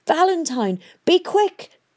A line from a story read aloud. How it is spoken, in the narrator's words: She shouted